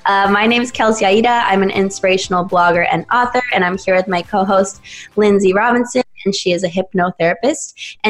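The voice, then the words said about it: Raspy, husky voice. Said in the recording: “my voice is a little sexier and raspier than usual, but I just got over a cold ... sounds different”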